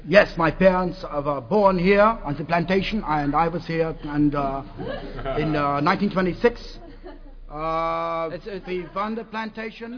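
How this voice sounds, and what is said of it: Put-on Spanish accent. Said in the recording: “Is that a Spanish accent you're affecting, sir?”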